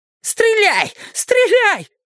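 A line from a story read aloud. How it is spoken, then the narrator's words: Bloodthirsty furious shout. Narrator (Russian): закричал священник с кровожадной яростью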